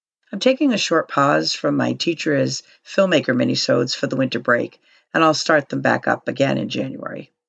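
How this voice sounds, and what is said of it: Hoarse, strained voice. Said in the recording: “I do want to apologize for the quality of my voice. Once again, I am having some kind of laryngitis thing going on.”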